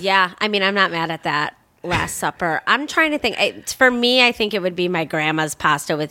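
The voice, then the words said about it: Heavy Chicago accent. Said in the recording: “I have a heavy Chicago accent.”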